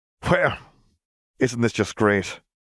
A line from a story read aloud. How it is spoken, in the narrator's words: Gabriel chuckled humorlessly